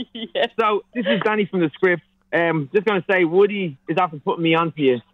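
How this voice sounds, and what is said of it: Irish accent. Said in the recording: “It's an Irish accent.”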